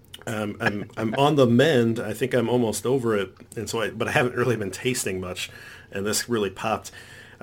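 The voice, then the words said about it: Congested voice from a cold. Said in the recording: “if you guys can hear it in my voice, I'm recovering from a cold”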